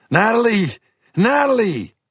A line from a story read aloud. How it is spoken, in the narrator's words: I sounded panicked when I yelled